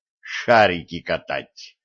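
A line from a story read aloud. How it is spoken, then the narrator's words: Hissing. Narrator (Russian): прошипел Виталик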